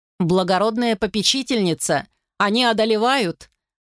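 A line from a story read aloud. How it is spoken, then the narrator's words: Shout from behind door. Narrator (Russian): прокричал из-за двери рыцарь Брамель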